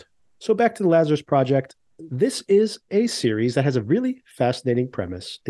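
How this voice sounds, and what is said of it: Congested, slightly altered voice. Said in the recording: “I'm actually getting over a cold, so my voice may be a little different”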